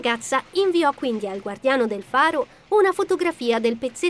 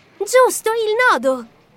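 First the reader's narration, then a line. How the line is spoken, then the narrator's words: Sudden exclamation. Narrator (Italian): esclamò all'improvviso Violet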